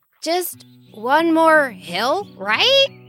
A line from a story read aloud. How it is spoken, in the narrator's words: Alexander croaked back